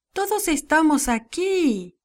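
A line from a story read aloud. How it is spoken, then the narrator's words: Shouting. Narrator (Spanish): Pablo gritó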